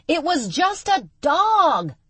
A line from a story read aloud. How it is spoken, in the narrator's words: Shocked, Charlie yelled after her